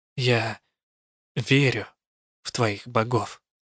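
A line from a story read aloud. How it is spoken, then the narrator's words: Quiet. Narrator (Russian): тихо сказала я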